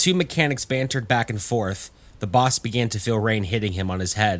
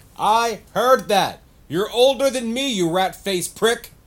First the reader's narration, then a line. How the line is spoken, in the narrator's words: Elmer yelled back